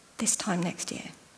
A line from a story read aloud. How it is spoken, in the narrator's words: really gently, just outside the tent, so that Sarah can hear, he says